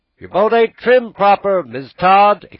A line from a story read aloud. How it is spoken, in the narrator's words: exclaimed a voice from shore